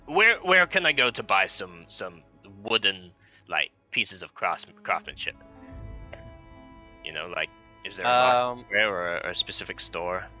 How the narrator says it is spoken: ask him relatively gruffly

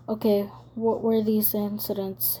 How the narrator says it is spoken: he asked

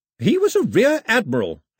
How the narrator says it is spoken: her grandmother snapped

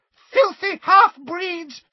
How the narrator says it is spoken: she screamed

